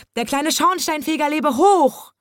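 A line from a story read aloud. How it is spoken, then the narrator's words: Joyful cat shouting along. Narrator (German): Bommels weiße Miezekatze schrie vor lauter Freude mit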